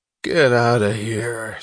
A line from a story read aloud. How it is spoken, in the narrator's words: snarled Cuffy Meg's